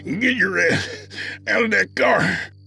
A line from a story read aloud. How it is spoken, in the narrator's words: he called out between breaths